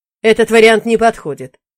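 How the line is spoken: Sharp, curt. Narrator (Russian): резко отрубил брат

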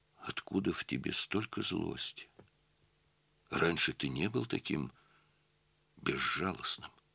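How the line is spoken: Quiet speech. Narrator (Russian): Светлана тихо сказала

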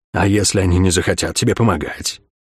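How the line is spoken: Whispering darkness. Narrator (Russian): прошептал мрак

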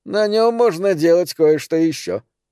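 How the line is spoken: Laughing. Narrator (Russian): засмеялся Тим

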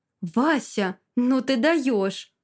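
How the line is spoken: Joyful, smiling grandmother. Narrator (Russian): Бабушка радостно улыбается

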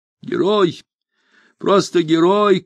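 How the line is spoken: Repeated shouting. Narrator (Russian): крикнула она несколько раз

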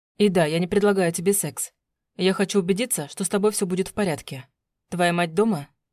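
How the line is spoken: Plain. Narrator (Russian): спросил

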